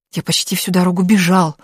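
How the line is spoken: Panting whisper. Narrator (Russian): отдуваясь, прошептал он

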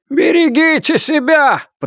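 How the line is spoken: Shouted. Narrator (Russian): прокричал он

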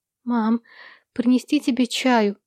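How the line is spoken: Timid girl's question. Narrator (Russian): робко спросила девочка

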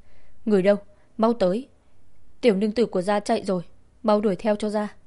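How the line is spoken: Shouting. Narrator (Vietnamese): Tiễn Tam ở trong phòng hét lên

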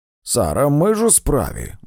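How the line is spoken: Grumbling. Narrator (Ukrainian): буркнув

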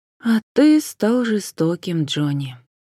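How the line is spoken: Sighed. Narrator (Russian): вздохнула Джен

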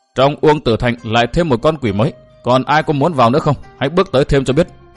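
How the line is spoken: Cold woman's voice. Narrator (Vietnamese): nàng áo đỏ lạnh lùng nói

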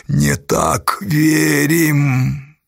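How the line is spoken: Suddenly full, resonant voice. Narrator (Russian): Флегонт неожиданно полнозвучным голосом произнес

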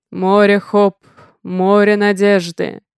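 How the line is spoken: Deep bass voice. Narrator (Russian): заговорил басом самый высокий из мужчин

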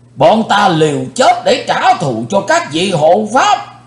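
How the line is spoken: Crowd shouting together. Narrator (Vietnamese): quần hùng đã quát lên

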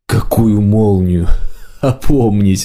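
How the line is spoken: Laughing. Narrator (Russian): маг засмеялся

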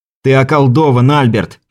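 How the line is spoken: Shouted. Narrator (Russian): крикнул поэту

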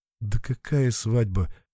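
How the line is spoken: Embarrassed mumble. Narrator (Russian): пробормотал и покраснел еще больше

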